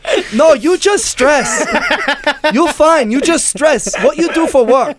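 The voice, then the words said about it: Put-on Chinese accent. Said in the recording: “Here comes an Anxiety Now special of accents ... with a Chinese accent ... You got to break out the Chinese accent at all times.”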